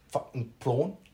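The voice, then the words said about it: Poor South African accent, choking sound. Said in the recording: “finish on a South African ... Why do you sound like you're choking on something, dude?”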